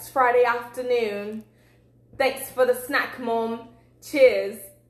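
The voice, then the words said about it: Put-on British accent. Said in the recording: “It's like a British accent.”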